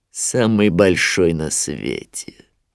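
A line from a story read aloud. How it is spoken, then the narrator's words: Grim smirk. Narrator (Russian): мрачно ухмыльнулся Шрам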